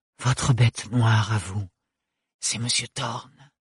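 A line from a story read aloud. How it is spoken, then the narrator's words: Whispered in ear. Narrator (French): souffla Cunégonde dans l'oreille d'Ophélie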